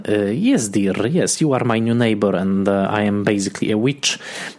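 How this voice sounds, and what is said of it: Hard Eastern European accent, Grace Zabriskie. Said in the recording (Polish): “mówiącą z bardzo twardym wschodnioeuropejskim akcentem”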